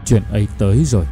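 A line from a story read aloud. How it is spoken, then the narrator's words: Dazed mutter. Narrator (Vietnamese): Hội đồng thì như kẻ mất hồn, vừa lẩm bẩm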